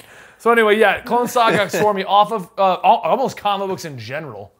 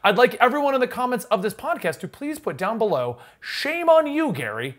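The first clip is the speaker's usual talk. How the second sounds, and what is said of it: Mock newscaster voice. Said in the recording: “my newscaster voice”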